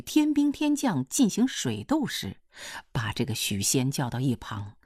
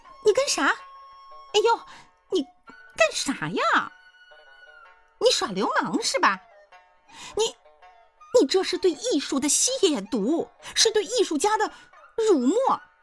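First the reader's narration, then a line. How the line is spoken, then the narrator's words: Woman's shrill shriek. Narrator (Chinese): 那娘们儿就跟尾巴被谁踩住了一样，滋哇一声，昂起头尖叫道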